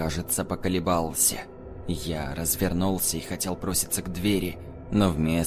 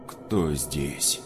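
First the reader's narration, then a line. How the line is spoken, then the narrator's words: Heavy, lazily curious grumble. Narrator (Russian): Пробурчал тот же вязкий, тяжелый голос, в котором читался не страх, а ленивое любопытство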